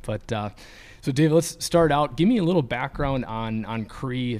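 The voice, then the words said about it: Hoarse, fading voice. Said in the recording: “I'm in the process of losing my voice,”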